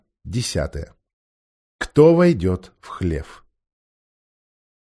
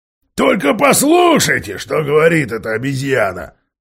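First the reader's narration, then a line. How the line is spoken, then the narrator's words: Shouted out. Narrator (Russian): выкрикнул он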